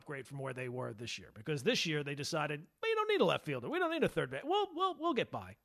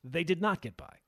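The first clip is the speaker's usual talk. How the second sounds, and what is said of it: Dramatic narrator voice. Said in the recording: “Narrator voice,”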